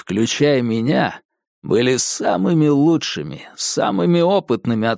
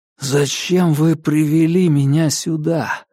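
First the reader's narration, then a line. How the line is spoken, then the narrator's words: Hoarse wheeze. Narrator (Russian): прохрипел я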